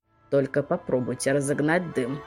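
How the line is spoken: Grumbling old woman. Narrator (Russian): проворчала старуха

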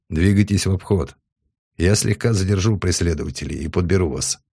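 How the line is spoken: Perfectly calm ship report. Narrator (Russian): абсолютно спокойно доложил корабль

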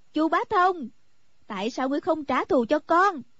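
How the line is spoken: Crying out. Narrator (Vietnamese): anh cô kêu lên

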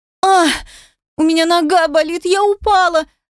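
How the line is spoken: Scream, crying turning to stifled laughter. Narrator (Russian): Закричала, переходя с плача на сдавленный смех

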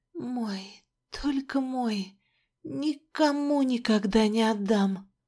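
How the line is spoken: Muttering. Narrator (Russian): бормотала

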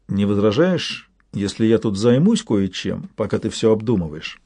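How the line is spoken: Very serious question. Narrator (Russian): спросил очень серьезным тоном

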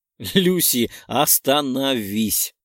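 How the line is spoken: Laughing. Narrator (Russian): Засмеялась я от ее домыслов

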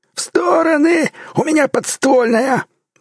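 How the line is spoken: Warning yell. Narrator (Russian): заорал Сивый, предупреждая друзей

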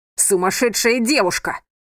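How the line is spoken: Booming voice near ear. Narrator (Russian): прогремел знакомый голос возле уха

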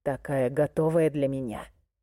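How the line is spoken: Low growl. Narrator (Russian): прорычал он

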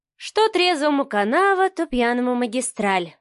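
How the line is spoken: Sighing. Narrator (Russian): вздохнула Марианна

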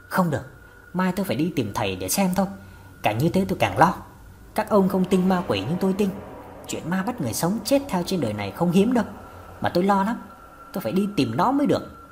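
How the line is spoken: Soft-spoken. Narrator (Vietnamese): Bà Hòa khẽ nói

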